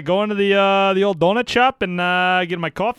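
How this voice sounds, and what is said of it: Weak put-on Canadian accent. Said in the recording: “do a skit of a Canadian guy going to get a donut ... It's not great. The impersonations we need to work on.”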